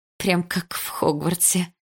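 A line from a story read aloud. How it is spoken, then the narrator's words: Giggling. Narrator (Russian): хихикнула я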